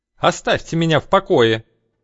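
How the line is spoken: Hysterical shrill scream. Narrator (Russian): Истеричный визгливый крик

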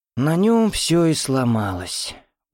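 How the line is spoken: Woman's tired voice. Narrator (Russian): устало сказала женщина

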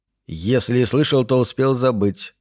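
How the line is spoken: Soft and quiet. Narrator (Russian): мягко и негромко ответил Пендергаст

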